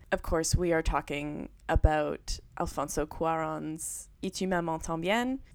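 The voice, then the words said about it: French-ish accent on a title. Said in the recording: “saying that in kind of like a French-ish accent”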